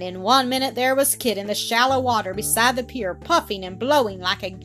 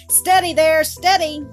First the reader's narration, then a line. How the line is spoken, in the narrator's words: called out